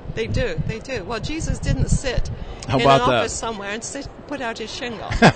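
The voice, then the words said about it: English accent. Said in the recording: “that accent that you're lending us today ... born and raised in England ... There are some similarities, yes”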